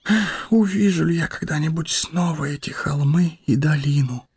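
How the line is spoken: Whisper. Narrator (Russian): прошептал он

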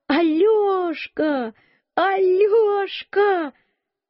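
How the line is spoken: Shouting. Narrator (Russian): закричала

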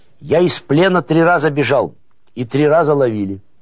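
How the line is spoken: Loud, half-deaf man. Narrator (Russian): Сенька Клевшин услышал через глушь свою, что о побеге из плена говорят, и сказал громко

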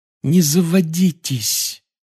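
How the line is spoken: Pleading. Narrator (Russian): взмолилась Гермиона

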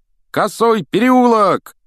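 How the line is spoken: Shouting. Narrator (Russian): крикнул Фред

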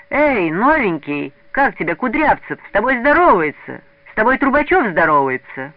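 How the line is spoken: Children shouting. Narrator (Russian): закричали вокруг ребята

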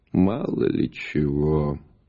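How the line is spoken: Old man, sighing reply. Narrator (Russian): вздохнув, ответил старик

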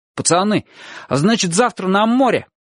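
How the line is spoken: Distant shout. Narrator (Russian): раздался голос Абу уже издалека, уже оттуда крикнул

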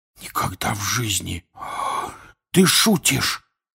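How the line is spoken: Whispered. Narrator (Russian): прошептал Рон

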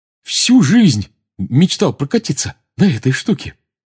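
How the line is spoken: Joyful. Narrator (Russian): радостно сказал Рон

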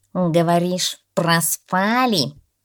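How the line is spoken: Cat grumbling. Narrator (Russian): проворчал кот черный

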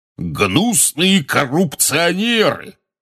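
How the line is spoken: Roaring portly wizard. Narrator (Russian): взревел портрет дородного красноносого волшебника

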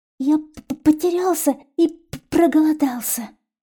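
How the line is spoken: Stammering child's babble. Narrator (Russian): заикаясь, пролепетал мальчик

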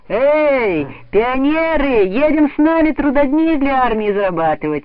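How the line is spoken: Cheerful shouting. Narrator (Russian): весело кричали они ребятам

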